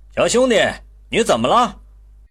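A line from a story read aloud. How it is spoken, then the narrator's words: Calling out. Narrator (Chinese): 有个男人叫他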